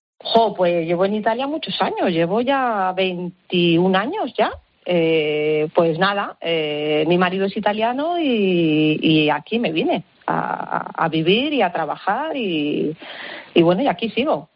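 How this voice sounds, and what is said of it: Spanish accent from Spain. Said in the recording (Spanish): “tú eres española, vamos, se nota perfectamente en tu acento”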